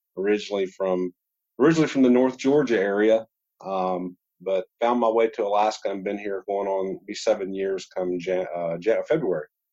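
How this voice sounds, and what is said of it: Slight Georgia Southern US accent. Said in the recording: “you still have a little bit, it sounds like a little bit of a little Georgia accent.”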